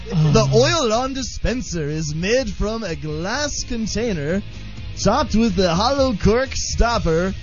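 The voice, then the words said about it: Game show announcer voice. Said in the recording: “This is your game show voice.”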